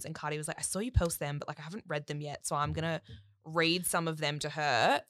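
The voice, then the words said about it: Put-on American accent. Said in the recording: “It's your random American accent ... Yeah, it's my American accent.”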